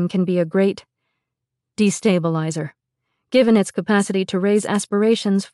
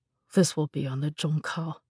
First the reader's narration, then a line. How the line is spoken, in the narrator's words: Junjun muttered